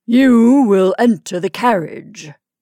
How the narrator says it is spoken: said, in a large voice like himself, but smoothed by art and habit

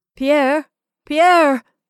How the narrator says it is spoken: I cried, fearing to comprehend

